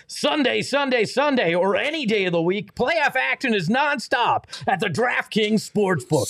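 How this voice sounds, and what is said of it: Demolition derby announcer voice. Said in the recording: “I'll do the DraftKings read as if I'm a derby car announcer, a demolition derby announcer.”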